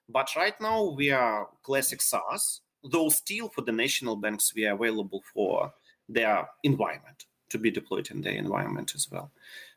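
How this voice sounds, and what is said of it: Non-native English accent. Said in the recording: “small company with my accent”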